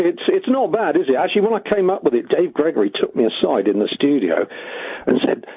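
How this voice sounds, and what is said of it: Usual voice. Nothing is said of it.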